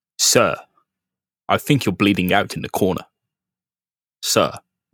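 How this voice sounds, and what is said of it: Put-on British butler accent. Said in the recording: “even if you if you're an American butler, you have to learn a British accent.”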